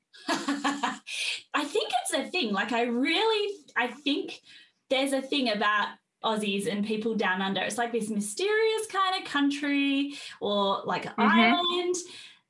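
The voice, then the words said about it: Australian accent. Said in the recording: “your Australian accent”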